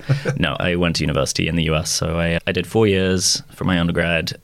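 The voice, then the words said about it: British speaker with American twang. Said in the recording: “you sound a bit American ... the twang never goes ... my pronunciation, my T's are still sharp, pointed things, but something about the ineffable twang, the bed of my voice, remains American”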